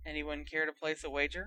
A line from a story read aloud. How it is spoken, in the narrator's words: muttered Ron